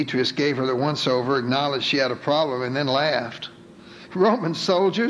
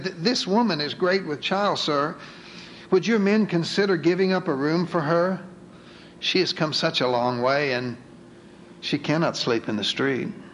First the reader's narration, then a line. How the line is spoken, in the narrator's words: Ruth timidly said